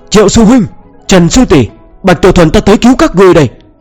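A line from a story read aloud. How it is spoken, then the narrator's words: Loud bold shout. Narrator (Vietnamese): hắn cảm thấy sẽ có kẻ cho rằng mình sợ nên lập tức hét lớn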